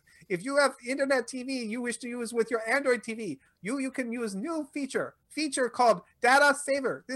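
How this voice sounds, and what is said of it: Bad put-on Indian English accent. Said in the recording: “my bad, horrible accent ... I hope that accent isn't because this has up to this point been available in India ... That was the whole point of the bad accent”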